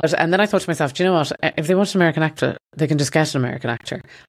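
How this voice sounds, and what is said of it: Irish accent. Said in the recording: “obviously I have an accent. I can't do an American accent ... basically I have an Irish accent ... Irish people, it is hard to do an accent”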